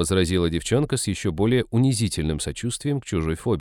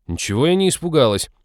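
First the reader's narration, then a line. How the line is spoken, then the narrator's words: Indignant retort. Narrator (Russian): возмутилась Молли в унисон с рычащим псом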